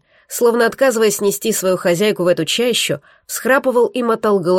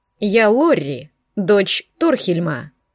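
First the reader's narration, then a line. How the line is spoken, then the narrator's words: Calm woman. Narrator (Russian): сказала она спокойно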